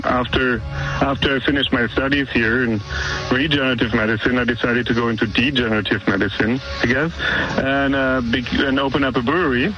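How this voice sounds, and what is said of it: German accent. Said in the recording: “true German beers out here, right? I mean, you can hear it in my accent.”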